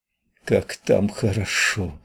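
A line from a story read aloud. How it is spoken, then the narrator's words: Moaned. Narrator (Russian): простонала Снежана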